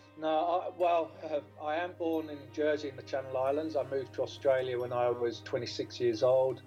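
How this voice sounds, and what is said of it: Non-UK accent. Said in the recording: “that's not a UK accent”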